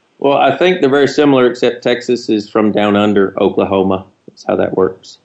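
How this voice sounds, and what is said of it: Texas accent. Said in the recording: “you know, Texas accent”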